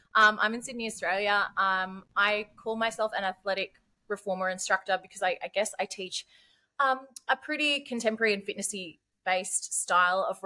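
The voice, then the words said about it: Broad Australian accent. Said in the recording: “I've got a pretty broad accent, and sometimes it gets broader”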